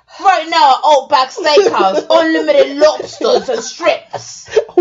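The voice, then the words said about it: Put-on Australian accent, congested. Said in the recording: “Why do you sound like Pete Dunne doing an Outback commercial? ... Australian accent is kind of hard to do ... I'm so mucused up”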